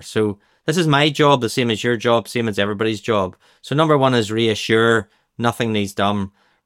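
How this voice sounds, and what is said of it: Northern Irish accent. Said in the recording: “with my Northern Ireland accent, it's hard to say this”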